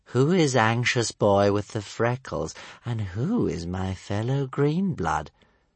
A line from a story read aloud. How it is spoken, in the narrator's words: purred Stormfly softly